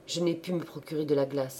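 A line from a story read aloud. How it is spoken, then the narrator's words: Curt. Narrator (French): répondit sèchement Thérèse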